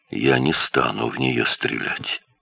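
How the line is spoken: Quiet, dry-mouthed. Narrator (Russian): Арни … во рту было сухо … негромко сказал

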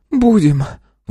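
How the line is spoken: Sighing. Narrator (Russian): вздохнула она

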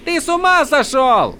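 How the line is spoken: Yelling from doorway. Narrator (Russian): заорал Адалин с порога

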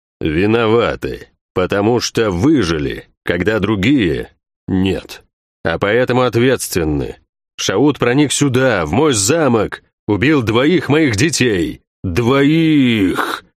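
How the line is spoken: Growled. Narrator (Russian): прорычал это слово

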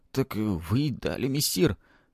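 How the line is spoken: Quiet dejected voice. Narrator (Russian): тихим, упавшим голосом произнес ученик

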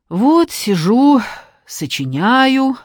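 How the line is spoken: Sighing. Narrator (Russian): вздохнула Алка

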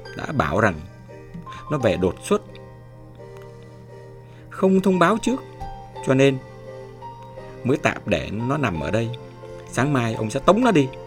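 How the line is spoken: Harsh, gritted voice. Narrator (Vietnamese): Chúng ... tiếp tục gằn giọng

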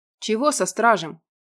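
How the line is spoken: Muttered through teeth. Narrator (Russian): пробурчал Радмир сквозь зубы

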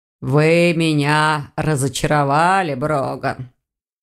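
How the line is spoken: Heavy sigh, then speaking. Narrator (Russian): Саргон тяжело вздохнул и продолжил

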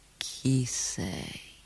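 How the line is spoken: Sleepy voice. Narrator (Italian): chiese con voce sonnolenta

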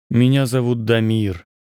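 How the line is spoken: Gloomy. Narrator (Russian): сказал я мрачно

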